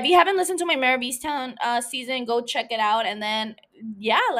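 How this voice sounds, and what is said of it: Usual voice. Nothing is said of it.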